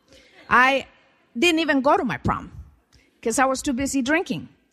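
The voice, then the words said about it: Slight Central American accent. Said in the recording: “I come from Guatemala, Central America. So if you hear a little bit of an accent, it is true. I am a foreigner.”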